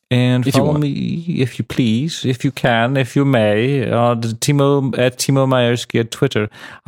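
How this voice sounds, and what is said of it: Bad put-on British accent. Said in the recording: “British accent. It was terrible.”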